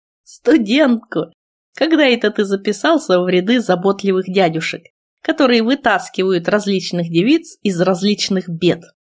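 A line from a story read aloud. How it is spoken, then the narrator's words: Calm. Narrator (Russian): ректор спокойно ответил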